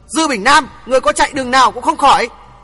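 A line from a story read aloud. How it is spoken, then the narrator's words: Loud shout. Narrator (Vietnamese): Thượng Chí quát lớn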